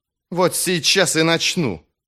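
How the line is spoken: Fierce snapping retort. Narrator (Russian): свирепо глядя на Малахуса, огрызнулся Джезаль

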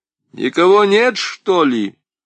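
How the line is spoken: Asking into emptiness. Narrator (Russian): спросил в пустоту

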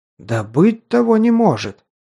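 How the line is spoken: Exclamation. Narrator (Russian): воскликнул он

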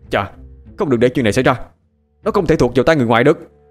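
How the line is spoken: Angry. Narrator (Vietnamese): Dương Khang liền tức giận

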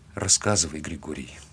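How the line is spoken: Quiet. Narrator (Russian): тихо сказала она

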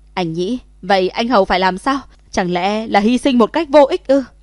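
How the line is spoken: Anguished screaming. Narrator (Vietnamese): gào thét

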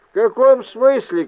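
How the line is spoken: Shout. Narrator (Russian): крикнул я

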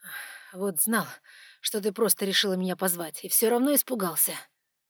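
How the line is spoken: Breathless exhale. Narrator (Russian): Выдохнул он

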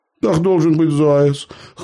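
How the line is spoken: Amused snort. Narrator (Russian): хмыкнул Михайло

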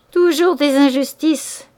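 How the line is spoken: Furious murmur. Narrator (French): murmura furieusement Clara

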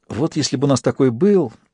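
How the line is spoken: Sighing. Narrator (Russian): вздохнула Ато

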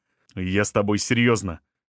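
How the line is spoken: Sharp. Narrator (Russian): резко сказал он

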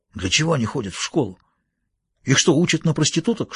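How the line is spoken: Whispered. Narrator (Russian): шепнул Кусанаги

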